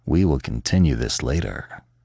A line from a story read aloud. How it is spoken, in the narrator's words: he murmured hoarsely